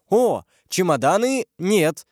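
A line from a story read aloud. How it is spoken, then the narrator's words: Exclamation. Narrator (Russian): воскликнул Лаюрьер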